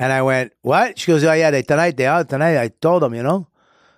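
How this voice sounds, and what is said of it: Usual voice. Nothing is said of it.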